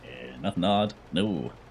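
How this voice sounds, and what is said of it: Child character with deep voice. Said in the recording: “This kid have a very deep voice for child.”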